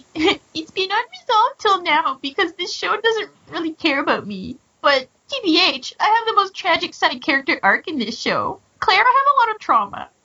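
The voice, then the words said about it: Whiny crying character voice. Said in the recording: “I want to do a whiny voice because she's crying”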